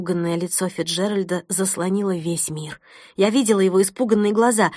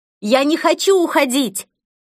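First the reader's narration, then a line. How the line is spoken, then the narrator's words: Exhausted desperate scream. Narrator (Russian): Из последних сил я закричала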